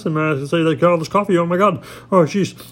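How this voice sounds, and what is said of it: Very fast excited speech. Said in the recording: “I can talk really fast like this”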